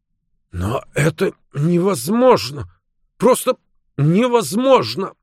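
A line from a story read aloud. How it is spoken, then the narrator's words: Stammering. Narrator (Russian): заикаясь, произнес О'Рурк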